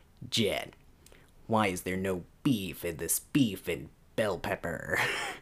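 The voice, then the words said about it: Attempted Spike Spiegel voice impression. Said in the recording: “same guy who voices Spike Spiegel ... it really does sound like Spike ... I can't do his voice, but I'm gonna try ... No, that doesn't sound good.”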